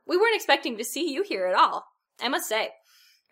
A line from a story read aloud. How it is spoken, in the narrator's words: Hermione exclaimed